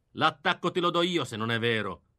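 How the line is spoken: Grumbling. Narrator (Italian): brontolò

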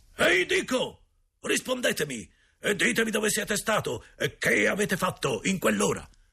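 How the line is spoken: Louder angry yell. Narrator (Italian): non ricevendo risposta urlò ancora più forte

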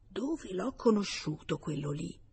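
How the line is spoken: Low repeated muttering. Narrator (Italian): ripetendo a bassa voce

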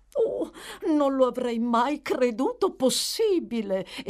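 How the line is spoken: Headmistress's emphatic exclamation. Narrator (Italian): esclamò la direttrice con enfasi

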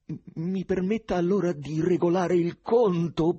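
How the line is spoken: Crushed whimpering. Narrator (Italian): piagnucolò Stiopa annientato

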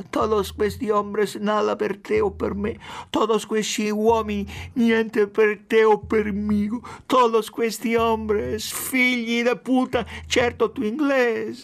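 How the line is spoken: Mumbling. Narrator (Italian): farfugliava

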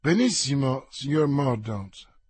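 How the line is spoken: Plain. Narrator (Italian): disse il ministro

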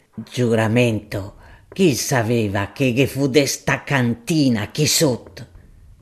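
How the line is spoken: Muttered dully. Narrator (Italian): brontolava sordamente

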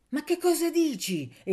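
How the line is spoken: Impatient exclamation. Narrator (Italian): esclamò impaziente più che addolorata

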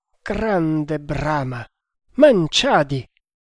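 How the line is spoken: Maratha man exclaiming. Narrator (Italian): esclamò il maharatto

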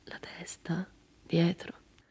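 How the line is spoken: Woman murmuring. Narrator (Italian): Lei mormorò

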